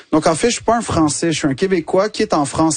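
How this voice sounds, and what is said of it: Québécois French accent. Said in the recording (French): “l'accent québécois ... tu le dis avec cet accent”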